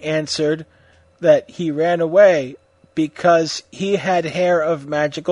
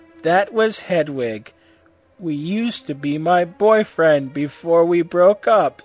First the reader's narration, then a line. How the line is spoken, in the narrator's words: Satan said sadly